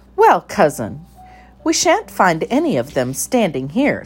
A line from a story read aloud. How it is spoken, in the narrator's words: said Ribby firmly